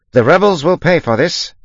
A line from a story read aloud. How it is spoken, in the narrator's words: he said loudly, so that the passing soldiers might hear